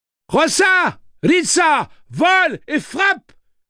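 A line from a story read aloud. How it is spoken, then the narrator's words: Shouted. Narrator (French): cria Rosalita Munoz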